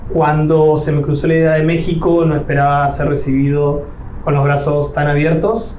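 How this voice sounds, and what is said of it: Argentine Spanish accent. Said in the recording (Spanish): “me delata el acento, pues yo no soy de México, soy de Argentina”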